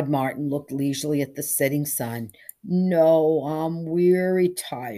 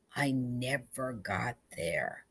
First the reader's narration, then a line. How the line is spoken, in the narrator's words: his voice was slow and husky and low